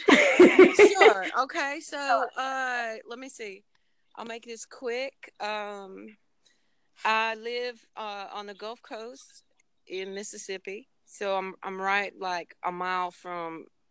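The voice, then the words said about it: Pleasant voice with a regional accent. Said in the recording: “your beautiful voice, accent. I mean, I'm in love with your accent ... you've got such a wonderful voice”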